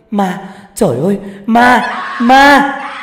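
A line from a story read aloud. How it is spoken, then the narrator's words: Terrified screaming. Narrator (Vietnamese): Tôi hét toáng lên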